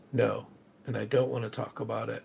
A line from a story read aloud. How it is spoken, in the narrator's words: His voice gets low and says